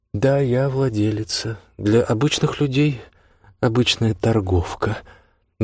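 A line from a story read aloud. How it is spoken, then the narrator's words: Casual, tossed over shoulder. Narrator (Russian): бросила она через плечо разговорным тоном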